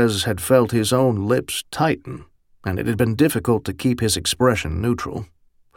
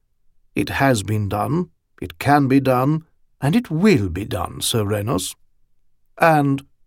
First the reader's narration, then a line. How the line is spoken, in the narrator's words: he'd added blandly